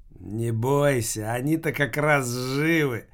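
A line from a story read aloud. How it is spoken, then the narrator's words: Grating voice. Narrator (Russian): проговорил скрежещущим голосом Филька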